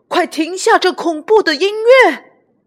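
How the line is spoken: Shouting. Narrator (Chinese): 约翰嚷起来

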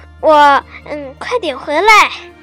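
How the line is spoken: Plain. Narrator (Chinese): 还是说

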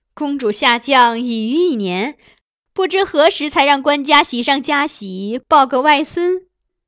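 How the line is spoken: Smiling question. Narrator (Chinese): 于冲一岁笑问公主

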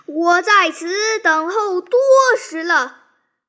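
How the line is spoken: Loud battle shout. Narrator (Chinese): 一队军马 大叫曰

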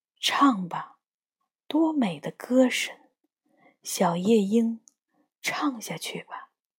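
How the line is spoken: Murmuring to self. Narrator (Chinese): 还喃喃自语

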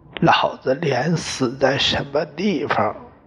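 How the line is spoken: Hoarse. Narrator (Chinese): 他沙哑的说

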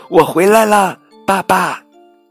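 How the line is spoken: Calling out. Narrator (Chinese): 小兔朝前方呼喊

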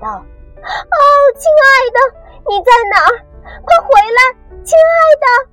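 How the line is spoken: Sad shouting. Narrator (Chinese): 他伤心的大喊道

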